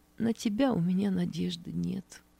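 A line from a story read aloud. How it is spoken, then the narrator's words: Quiet answer. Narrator (Russian): Нина Матвеевна тихо ответила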